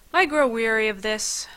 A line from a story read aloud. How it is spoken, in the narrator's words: I sighed